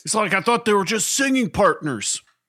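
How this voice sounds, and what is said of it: Imitates another person's voice. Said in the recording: “That's my Alfie impression.”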